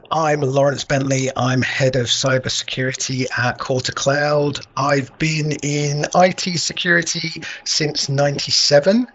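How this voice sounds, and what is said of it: Southern English accent, not northern. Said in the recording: “As you can probably tell by my accent, I am not natively from up north, but I've now been living up north longer than I was ever down south.”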